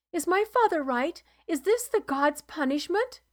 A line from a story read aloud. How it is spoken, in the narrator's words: Torian whimpered